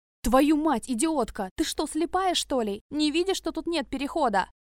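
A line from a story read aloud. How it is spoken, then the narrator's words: Furious yelling. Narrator (Russian): Орал на несчастную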